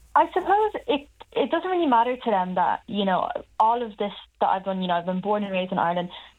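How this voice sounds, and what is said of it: Irish accent. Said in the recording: “You have an Irish accent.”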